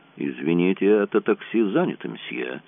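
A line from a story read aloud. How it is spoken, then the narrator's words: Dry. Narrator (Russian): Шерман сухо ему сказал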